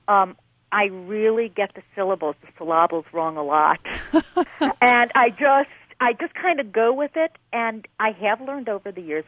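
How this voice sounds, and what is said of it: Upstate New York accent. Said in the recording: “I have that upstate New York accent.”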